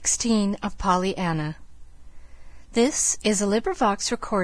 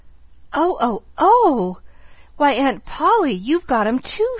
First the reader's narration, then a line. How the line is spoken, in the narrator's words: she cried rapturously, dancing round and round her aunt